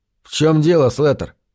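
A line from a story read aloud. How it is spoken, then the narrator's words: Calm question. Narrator (Russian): спокойно спросил я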